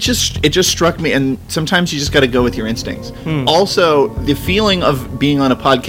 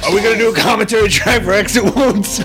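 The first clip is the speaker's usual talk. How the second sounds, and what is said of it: Bad DMX impression. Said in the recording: “My DMX impression started at worst impression ever and then somehow got like seven times worse than that.”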